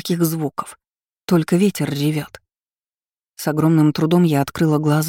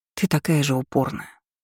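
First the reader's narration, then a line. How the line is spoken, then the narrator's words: Whispering. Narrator (Russian): шептала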